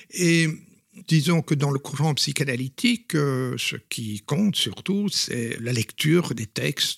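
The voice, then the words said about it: Belgian Flemish accent in French. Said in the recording (French): “on entend votre accent. ... vous êtes belge ... je suis belge et flamand”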